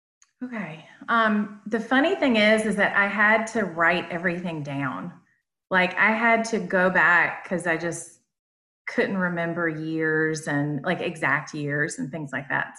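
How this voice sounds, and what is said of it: Southern American accent. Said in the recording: “I love your accent ... Southern accent going on”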